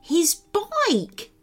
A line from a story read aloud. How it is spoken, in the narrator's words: said Barnabas cheerfully